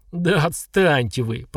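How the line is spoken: Groaning fugitive. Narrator (Russian): простонал беглец

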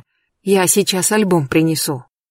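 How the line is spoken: Hurried old woman. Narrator (Russian): Бабуля сказала торопливо

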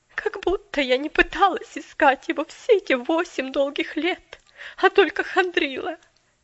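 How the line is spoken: Sobbing indignant outburst. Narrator (Russian): Величественно вспыхнула мисс Керри с рыданием в голосе

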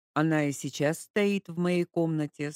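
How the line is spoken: Plain. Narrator (Russian): сказал он

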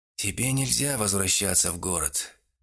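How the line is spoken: Said with a sigh. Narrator (Russian): вздохнув, сказал Арнульф

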